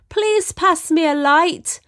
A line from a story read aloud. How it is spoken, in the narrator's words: The man shouted to Martha